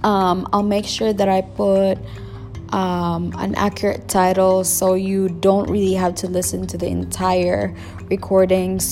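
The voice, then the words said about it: Slight Filipino accent. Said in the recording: “my accent might be a little bit of that Filipino or Asian accent”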